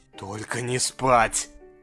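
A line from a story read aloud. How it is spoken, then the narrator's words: Muttered. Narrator (Russian): Пробормотал он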